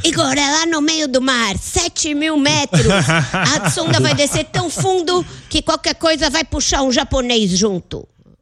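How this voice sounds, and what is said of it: Imitates another person's voice. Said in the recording (Portuguese): “tô impressionado com essa imitação do Lula ... é boa”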